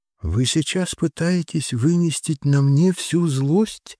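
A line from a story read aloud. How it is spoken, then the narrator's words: Tired voice. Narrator (Russian): спросила уставшим голосом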